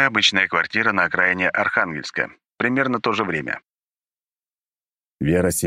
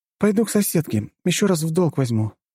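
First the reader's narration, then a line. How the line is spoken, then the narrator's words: Sighing. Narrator (Russian): вздохнула Вера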